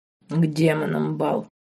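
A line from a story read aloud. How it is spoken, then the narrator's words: Growled. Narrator (Russian): прорычал Марк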